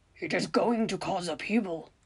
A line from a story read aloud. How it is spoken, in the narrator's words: Hagrid grumbles